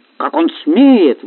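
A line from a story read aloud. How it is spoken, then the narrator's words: Exclaimed. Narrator (Russian): воскликнул Георгий Георгиевич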